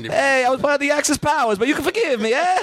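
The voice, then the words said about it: Put-on comic dialect. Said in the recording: “Sometimes ... does a dialect and I go, now I want to see that whole movie.”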